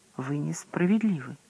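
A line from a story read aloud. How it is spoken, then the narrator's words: Trembling voice. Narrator (Russian): отвечала Круциферская дрожащим голосом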